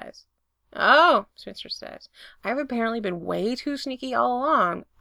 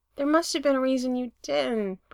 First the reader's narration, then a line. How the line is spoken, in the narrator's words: Brendan says miserably